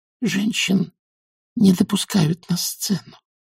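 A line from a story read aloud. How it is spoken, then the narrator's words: Quiet. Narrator (Russian): тихонько сказала Маград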